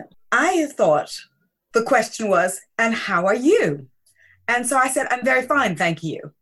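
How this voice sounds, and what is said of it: American accent. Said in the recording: “I'm American. You can tell that by my accent.”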